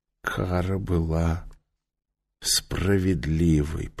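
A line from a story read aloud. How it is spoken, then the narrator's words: Whisper. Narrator (Russian): прошептал он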